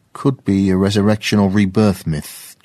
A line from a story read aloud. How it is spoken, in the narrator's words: James said